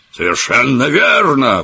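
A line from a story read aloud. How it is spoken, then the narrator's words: Exclaiming. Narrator (Russian): воскликнул Челленджер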